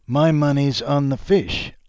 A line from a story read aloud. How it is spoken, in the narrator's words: laughed one of the drinking men